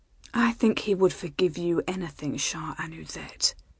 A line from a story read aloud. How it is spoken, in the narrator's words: she said softly